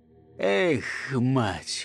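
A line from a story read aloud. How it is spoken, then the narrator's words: Exhaled sigh. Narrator (Russian): выдохнул солдат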